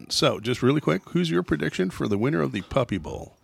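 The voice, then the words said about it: Morning radio DJ voice. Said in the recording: “You got a particularly morning radio voice going on today”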